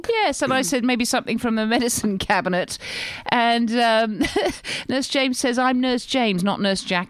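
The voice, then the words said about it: English accent. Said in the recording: “get rid of the accent ... nothing more exotic than an English accent”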